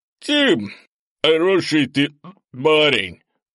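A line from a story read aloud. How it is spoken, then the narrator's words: Drunken older man. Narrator (Russian): пьяным тоном сообщил старший из грузчиков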